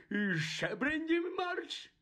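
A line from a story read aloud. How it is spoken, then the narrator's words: Terrified shrieking man. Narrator (Ukrainian): заверещав страшенно зблідний дядько Вернон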